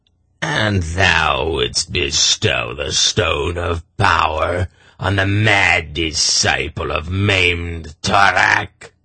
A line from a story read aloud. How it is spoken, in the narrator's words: Morja sneered